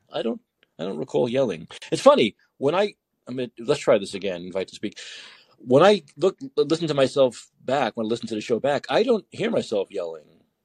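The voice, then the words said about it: New York accent. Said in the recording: “your ghetto-ass New York accent ... that's normal talking in New York”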